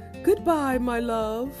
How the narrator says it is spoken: cried, wiping away a tear

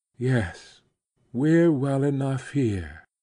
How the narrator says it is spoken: sighed

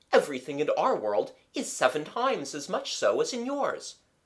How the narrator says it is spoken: said Phoebus kindly

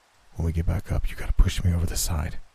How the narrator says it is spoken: he whispered

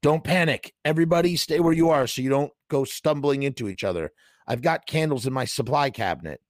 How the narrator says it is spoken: Ernie yelled

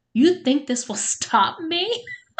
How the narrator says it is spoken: Jessica laughed

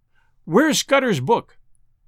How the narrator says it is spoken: I cried to Sir Walter

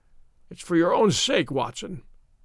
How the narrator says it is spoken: he croaked

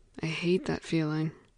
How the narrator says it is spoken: whispered again

